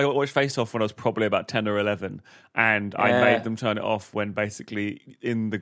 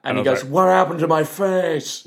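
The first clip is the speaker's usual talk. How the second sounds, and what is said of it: Imitates another person's voice. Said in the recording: “That's my Nicolas Cage impression. As you can see, don't hire me for acting.”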